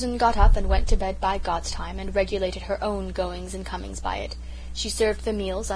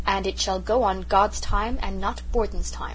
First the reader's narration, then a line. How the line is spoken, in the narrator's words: she said firmly